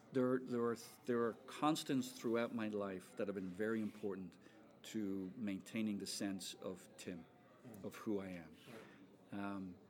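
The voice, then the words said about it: Irish accent. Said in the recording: “you still have an Irish accent”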